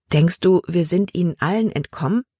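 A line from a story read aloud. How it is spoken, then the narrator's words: Plain question. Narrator (German): fragte Libby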